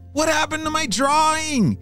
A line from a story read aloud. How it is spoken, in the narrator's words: James shouted